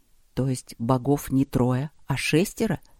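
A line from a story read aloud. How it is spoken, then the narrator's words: Quiet amazement. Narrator (Russian): изумился Трод тихо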